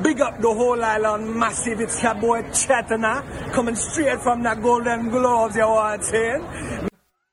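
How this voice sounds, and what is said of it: Put-on Jamaican patois accent. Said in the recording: “Patois ... The accent say Golden Globes”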